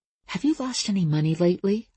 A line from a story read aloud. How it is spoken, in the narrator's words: I whispered